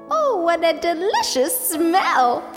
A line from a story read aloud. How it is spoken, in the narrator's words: she exclaimed